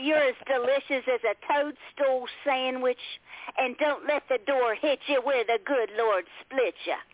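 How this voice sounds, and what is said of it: Poor put-on Southern US accent. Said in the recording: “in my terrible southern voice”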